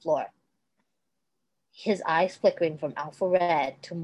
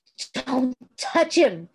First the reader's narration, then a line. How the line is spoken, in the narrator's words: Styles spat, throat raw